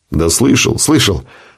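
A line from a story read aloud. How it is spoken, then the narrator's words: Grumbling. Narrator (Russian): проворчал связист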